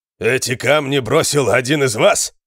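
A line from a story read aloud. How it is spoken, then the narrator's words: Shout. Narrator (Russian): крикнул он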